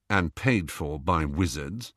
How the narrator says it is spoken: said Bill quietly

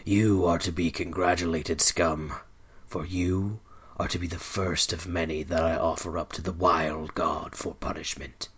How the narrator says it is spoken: growled

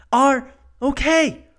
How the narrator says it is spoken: a female voice shouts

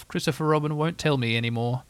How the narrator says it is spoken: he said sadly to himself

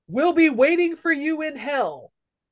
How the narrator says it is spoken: somebody yells to Axel

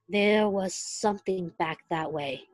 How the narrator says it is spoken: he murmured

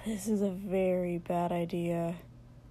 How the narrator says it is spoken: Shoto muttered

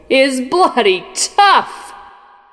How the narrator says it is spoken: roared

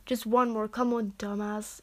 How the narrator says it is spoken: he groaned

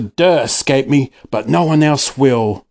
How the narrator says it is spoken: Snore snarled

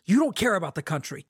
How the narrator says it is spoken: Kaladin snapped

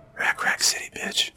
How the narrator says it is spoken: the figure whispered

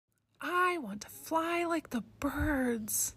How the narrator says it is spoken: she whispered

